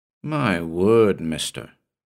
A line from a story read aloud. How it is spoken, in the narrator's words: he said